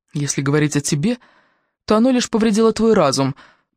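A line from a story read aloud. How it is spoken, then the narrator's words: Grumbling. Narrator (Russian): проворчал Конни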